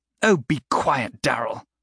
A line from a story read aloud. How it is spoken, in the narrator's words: Cressida spat out